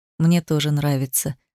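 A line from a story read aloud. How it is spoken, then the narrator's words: Quiet. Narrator (Russian): сказал негромко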